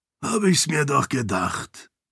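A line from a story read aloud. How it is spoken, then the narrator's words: Murmur. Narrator (German): murmelte er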